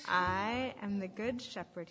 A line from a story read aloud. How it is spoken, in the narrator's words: said